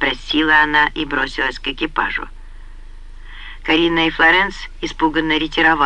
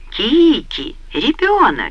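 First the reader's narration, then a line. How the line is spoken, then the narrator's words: Joyful exclamation, aunt. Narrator (Russian): радостно воскликнула тетушка Акелла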